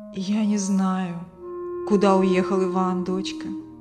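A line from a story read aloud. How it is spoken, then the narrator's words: Sighing. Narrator (Russian): вздохнул Константин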